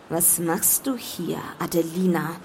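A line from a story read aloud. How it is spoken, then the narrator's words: Dangerously calm question. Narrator (German): fragte er und seine Stimme klang gefährlich ruhig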